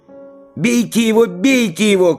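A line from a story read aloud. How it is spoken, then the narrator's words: Shouted. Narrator (Russian): крикнул Егорушка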